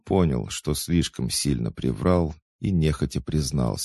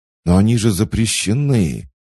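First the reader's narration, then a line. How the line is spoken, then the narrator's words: Strangled exclamation. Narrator (Russian): сдавленно воскликнул Марк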